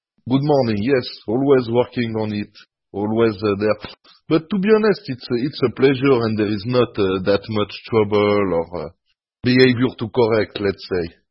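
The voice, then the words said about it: Non-native English accent. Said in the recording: “always improving his English accent.”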